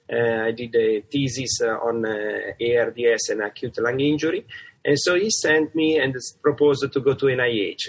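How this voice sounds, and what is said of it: Italian accent. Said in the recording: “I have a kind of great accent, which is from Italy”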